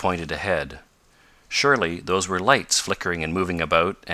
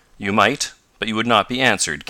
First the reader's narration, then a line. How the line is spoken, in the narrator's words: came sharply